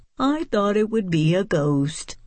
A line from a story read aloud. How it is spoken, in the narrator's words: Mouse said with a sigh